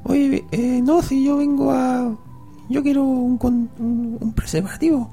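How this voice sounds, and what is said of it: Child's voice. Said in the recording (Spanish): “¿Tengo que hacer la voz de niño?”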